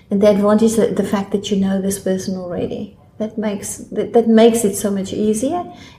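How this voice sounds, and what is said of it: South African accent. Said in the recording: “I assume the listeners can hear your accent ... I'm from South Africa.”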